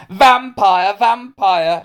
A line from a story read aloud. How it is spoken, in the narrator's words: he shouted